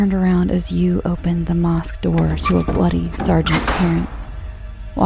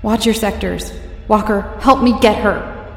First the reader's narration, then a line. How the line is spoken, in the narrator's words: I yelled